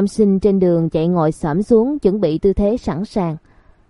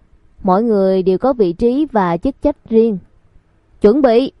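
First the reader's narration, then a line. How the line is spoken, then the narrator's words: Loud, laughing. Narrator (Vietnamese): Cô cười lớn to giọng nói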